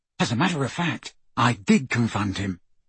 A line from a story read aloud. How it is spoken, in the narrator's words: Ron whispered to Harry